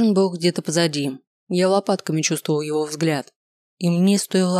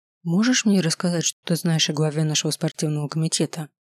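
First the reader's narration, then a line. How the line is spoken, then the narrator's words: Whispered question. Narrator (Russian): шепотом спросил я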